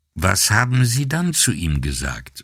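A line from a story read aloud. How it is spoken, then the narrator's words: Plain question. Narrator (German): fragte er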